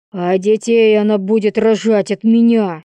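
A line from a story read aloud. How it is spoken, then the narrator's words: Shouted. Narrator (Russian): крикнул Андрей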